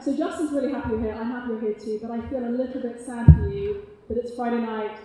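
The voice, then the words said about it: British accent. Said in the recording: “my British accent”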